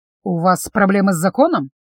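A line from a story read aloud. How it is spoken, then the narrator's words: Dry question. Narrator (Russian): сухо поинтересовался виконт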